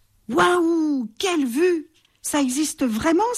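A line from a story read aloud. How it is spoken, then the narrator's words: Excited exclamation. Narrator (French): s'écrie la chauve-souris excitée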